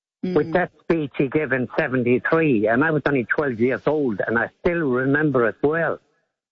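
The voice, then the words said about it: Irish accent. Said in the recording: “you yourself have a very interesting accent ... I come from County Clare ... Southern Ireland”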